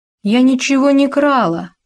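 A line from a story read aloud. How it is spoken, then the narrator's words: Wailing through tears. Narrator (Russian): вопила сквозь слезы Клавдия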